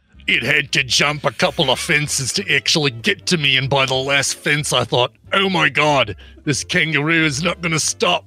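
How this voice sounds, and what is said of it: Attempted female Australian accent. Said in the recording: “one of your accents for the Australian ... this is a female, so higher voice, Australian ... prefaced it by saying, all right, female, and then just didn't do anything close”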